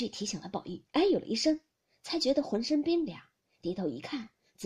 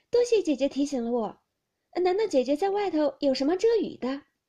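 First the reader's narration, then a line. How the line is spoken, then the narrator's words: Sinister laugh. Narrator (Chinese): 那女孩子阴笑道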